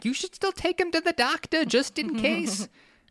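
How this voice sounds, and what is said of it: Put-on Brooklyn Jewish accent. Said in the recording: “the Brooklyn Jew accent”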